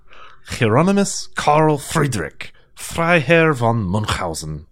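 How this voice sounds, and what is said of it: Questionable put-on German accent. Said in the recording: “your fine German accent? ... My highly questionable German accent.”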